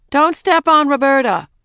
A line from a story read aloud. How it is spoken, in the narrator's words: her mother called out